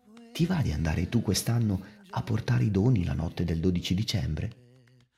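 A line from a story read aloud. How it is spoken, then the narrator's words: Whispered in ear. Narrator (Italian): Santa Lucia si avvicinò a nonna Chiara e le sussurrò ad un orecchio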